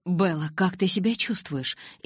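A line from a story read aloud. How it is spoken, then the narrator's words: Frightened question. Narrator (Russian): испуганно спросил учитель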